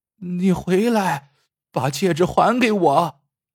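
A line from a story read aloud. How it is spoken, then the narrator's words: Alarmed shout. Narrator (Chinese): 大志娘顿时大惊失色，对着水中喊道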